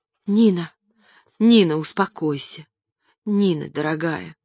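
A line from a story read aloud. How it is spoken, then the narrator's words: Exclamation. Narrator (Russian): воскликнул он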